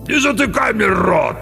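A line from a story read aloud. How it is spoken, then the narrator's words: Growled. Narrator (Russian): рыкнул тот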